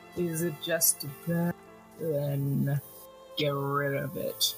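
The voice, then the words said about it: Deep rumbling cowboy voice. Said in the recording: “this big, deep voice kind of rumble ... Kind of sounds like John Wayne ... It was a poor John Wayne impression”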